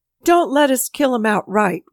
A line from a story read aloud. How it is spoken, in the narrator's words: one of them cried